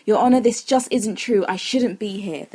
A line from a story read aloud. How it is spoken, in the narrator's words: the devil exclaimed